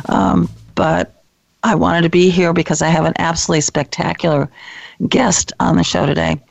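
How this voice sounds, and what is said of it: Unwell-sounding voice. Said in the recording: “apologize for my voice”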